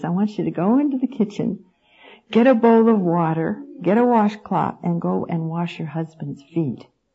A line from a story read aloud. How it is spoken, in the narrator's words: in his small, still voice tells you, he says